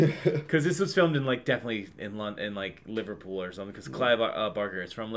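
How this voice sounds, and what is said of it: Usual voice. Nothing is said of it.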